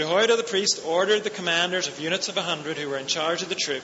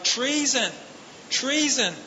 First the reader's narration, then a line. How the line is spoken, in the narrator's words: Athaliah tore her robes and called out